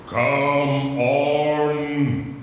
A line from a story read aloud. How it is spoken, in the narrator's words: he roared